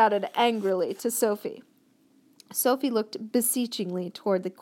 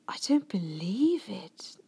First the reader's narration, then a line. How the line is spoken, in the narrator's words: the queen was murmuring